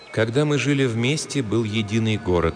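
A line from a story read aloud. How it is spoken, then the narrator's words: Slow, gentle homely voice. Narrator (Russian): неторопливо ответила Синица домашним нежным голосом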